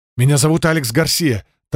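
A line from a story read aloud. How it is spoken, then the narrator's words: Hurried. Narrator (Russian): торопливо сообщил я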